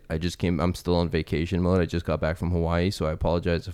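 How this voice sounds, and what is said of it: Slightly sick-sounding voice. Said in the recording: “I might sound a little sick. ... my voice is messed up”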